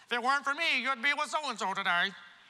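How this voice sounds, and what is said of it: Mimicked mom voice. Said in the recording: “It's my mom voice.”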